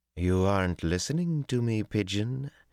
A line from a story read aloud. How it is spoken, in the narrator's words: Tylan cooed in dangerous tones